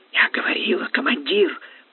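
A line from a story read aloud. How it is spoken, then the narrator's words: Wheezed hoarsely. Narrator (Russian): прохрипела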